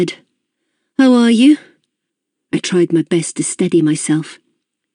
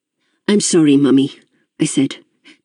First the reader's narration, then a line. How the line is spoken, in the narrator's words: I said, trying to keep my voice even